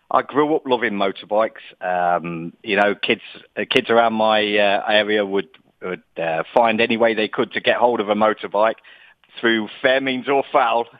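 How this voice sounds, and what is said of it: English Midlands accent. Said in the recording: “you probably tell from the accent, I'm an English guy. I was born in the Midlands of England”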